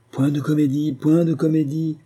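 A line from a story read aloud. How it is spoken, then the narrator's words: Crowd exclaiming in unison. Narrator (French): s'écrient les nomades d'une voix unanime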